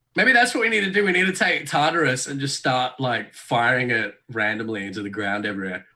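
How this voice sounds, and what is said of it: Speaks with a noticeable accent. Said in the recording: “when you say that with your accent ... your accent like delegitimizes it”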